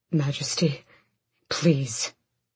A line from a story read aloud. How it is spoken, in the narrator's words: Gavriel hissed